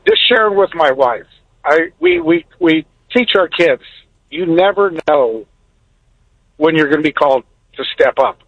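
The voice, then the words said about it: Emotional, choked-up voice. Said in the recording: “I got to relax, I'm getting emotional here”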